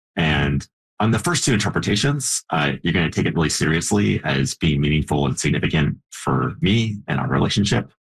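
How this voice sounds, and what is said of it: American accent. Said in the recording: “I have an American accent”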